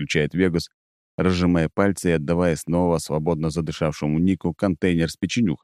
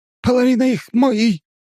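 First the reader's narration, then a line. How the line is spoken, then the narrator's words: Shrill squeal. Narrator (Russian): взвизгивает шаман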